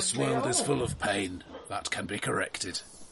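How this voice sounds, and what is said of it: Deep growly possessed voice. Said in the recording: “the traditional "I've been possessed" deep voice... A bit growly, not good for the throat.”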